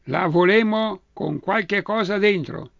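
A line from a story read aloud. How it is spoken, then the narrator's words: Shouting together. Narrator (Italian): gridano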